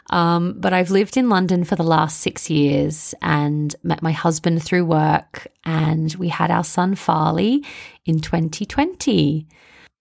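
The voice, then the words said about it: Broad Australian accent. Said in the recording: “I'm originally from Melbourne, Australia, which you can probably hear in my Bogan accent.”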